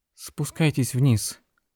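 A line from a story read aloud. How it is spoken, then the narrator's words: Trembling call. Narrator (Russian): дрожащим голосом позвала Дженнет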